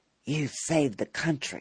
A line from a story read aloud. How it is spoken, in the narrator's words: Senator Patton whispered in an aside